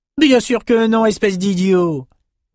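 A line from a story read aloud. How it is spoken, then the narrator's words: Exclaimed. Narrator (French): s'écria Amos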